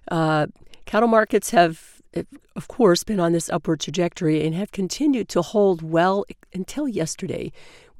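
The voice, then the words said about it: Weak, barely recovered voice. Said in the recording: “My voice is barely back now”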